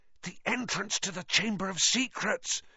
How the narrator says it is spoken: he said hoarsely

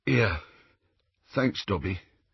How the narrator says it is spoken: said in a thick voice

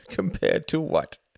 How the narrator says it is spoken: Klaus laughed

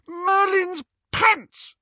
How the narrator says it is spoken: She shrieked

